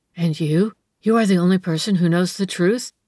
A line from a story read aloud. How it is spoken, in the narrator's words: she gasped in his ear